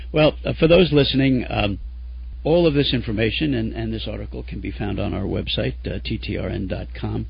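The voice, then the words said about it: Hoarse, fading voice. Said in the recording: “I'm kind of losing my voice here. I'm fighting a cold.”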